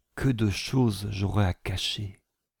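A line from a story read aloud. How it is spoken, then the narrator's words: Quiet aside. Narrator (French): ajouta tout bas Élisabeth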